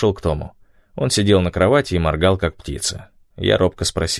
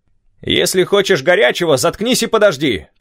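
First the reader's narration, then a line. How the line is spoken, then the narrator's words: Smiling shout. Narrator (Russian): крикнул док, улыбаясь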